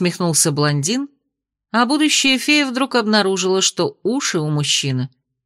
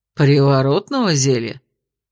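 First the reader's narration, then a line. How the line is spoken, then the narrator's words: Skeptical snort. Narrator (Russian): хмыкнул спаситель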